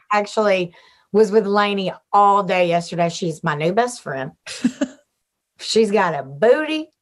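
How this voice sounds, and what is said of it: Thick Southern American accent. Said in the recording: “She's got a Southern accent... a girl that's got as thick of a booty and accent as me”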